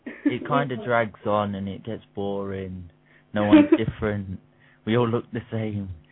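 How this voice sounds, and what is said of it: British accent. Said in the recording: “the British accent over here ... We love your accent.”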